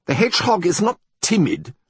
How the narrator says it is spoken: said von Igelfeld sharply

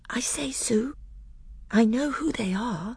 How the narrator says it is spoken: Lucy whispered to Susan

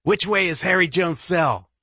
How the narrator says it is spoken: Elliot yells

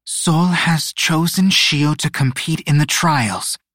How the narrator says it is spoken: Luna said, her voice steady and unwavering

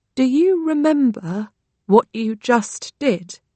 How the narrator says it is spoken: ask very slowly

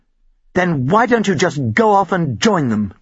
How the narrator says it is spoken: Jill snapped

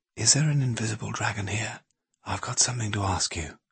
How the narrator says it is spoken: he said, almost in a whisper

